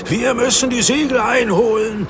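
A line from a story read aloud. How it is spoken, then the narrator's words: Shouting. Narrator (German): schrie Andreas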